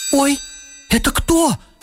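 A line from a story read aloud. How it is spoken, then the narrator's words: Mother's startled squeak. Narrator (Russian): пискнула мама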